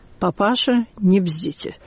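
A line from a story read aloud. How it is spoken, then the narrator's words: Quiet, pointedly restrained. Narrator (Russian): он только сказал тихо и подчеркнуто сдержанно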